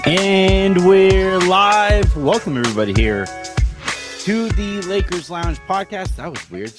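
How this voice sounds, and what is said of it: Out of breath. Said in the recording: “Just got really out of breath out of nowhere.”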